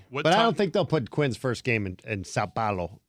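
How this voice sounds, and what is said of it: Slight put-on accent on place name. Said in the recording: “I like how you hit that with the little accent.”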